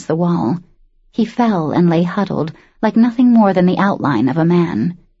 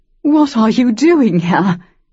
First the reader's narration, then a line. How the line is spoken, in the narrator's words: his past self gasped, cheeks streaming with tears